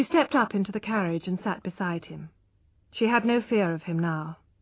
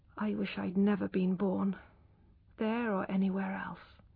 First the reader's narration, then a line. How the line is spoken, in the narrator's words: she said quietly